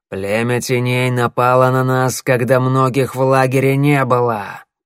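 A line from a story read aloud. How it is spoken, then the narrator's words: Growled. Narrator (Russian): прорычал он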